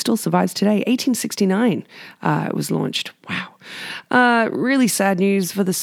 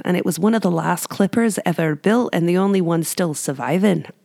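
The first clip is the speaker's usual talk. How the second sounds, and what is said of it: Put-on Scottish accent. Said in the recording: “Not my best Outlander accent”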